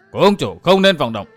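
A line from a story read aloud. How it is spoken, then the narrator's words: Sudden sharp shout. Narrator (Vietnamese): bỗng có tiếng quát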